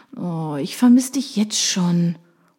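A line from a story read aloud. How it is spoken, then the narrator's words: Purring. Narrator (German): schnurrt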